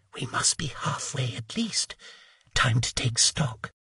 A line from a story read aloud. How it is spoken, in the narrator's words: whispering